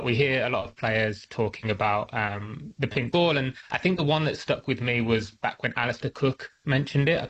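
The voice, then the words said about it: English accent. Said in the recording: “you can probably tell from my accent, I'm from England”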